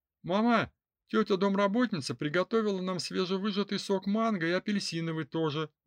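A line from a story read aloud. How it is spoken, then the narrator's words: Excited exclamation. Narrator (Russian): воскликнул Рус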